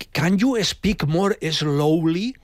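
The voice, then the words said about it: English with Catalan Ribera accent. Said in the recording (Catalan): “Així en l'accent este... De la Ribera”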